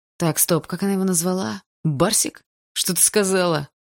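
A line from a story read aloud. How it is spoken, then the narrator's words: Growl, young man. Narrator (Russian): прорычал парень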